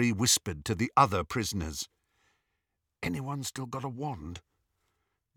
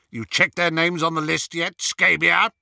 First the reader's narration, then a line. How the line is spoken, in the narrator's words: He roared